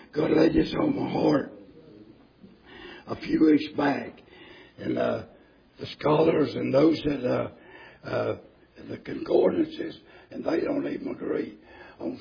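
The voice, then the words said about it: Strained, weakened voice. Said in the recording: “I'd apologize for my voice ... I got half a voice”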